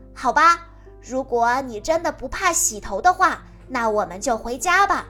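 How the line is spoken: Deliberately loud. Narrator (Chinese): 丹尼故意说的很大声

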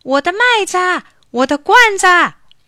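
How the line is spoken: Anxious shouting while running. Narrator (Chinese): 地主急得一边追一边喊

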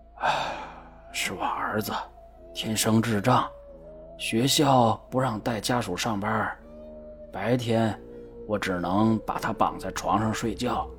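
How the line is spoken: Sighing. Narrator (Chinese): 保安叹了口气

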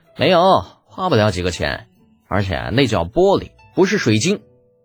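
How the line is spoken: Calm explanation. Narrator (Chinese): 李浩淡淡的解释道

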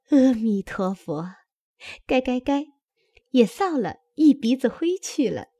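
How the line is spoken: Laughing. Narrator (Chinese): 也笑道

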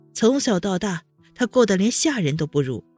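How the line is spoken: Sarcastic. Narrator (Chinese): 温之夏讽刺道

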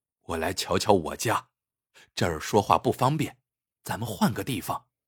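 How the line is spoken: Low voice. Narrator (Chinese): 张锦低声说

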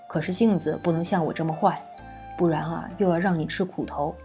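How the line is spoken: Smug, gentle, smiling. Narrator (Chinese): 凤燕北得意，笑得眉眼飞扬，柔声道

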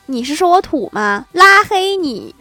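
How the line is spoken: Loud indignant demanding. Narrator (Chinese): 女神大声质问他

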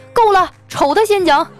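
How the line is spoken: Exasperated roar. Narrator (Chinese): 经理受不了了，大吼一声

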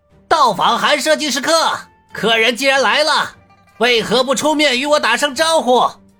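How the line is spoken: Calling out loudly. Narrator (Chinese): 男人朝着自己的房子喊道

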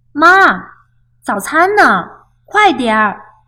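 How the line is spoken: Loud, impatient children. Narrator (Chinese): 西蒙和帕克……总是大声地说

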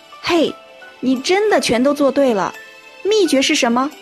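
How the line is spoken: Happy shout. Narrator (Chinese): 冲着他快乐大喊

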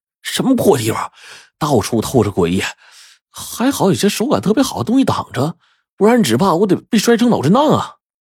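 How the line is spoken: Breathless cursing. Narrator (Chinese): 我气喘吁吁的，然后就骂道

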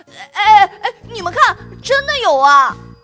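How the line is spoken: Shouting. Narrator (Chinese): Kevin 喊出来了

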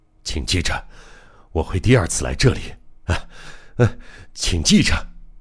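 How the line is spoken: Weak mumble. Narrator (Chinese): 他有气无力的嘟囔着

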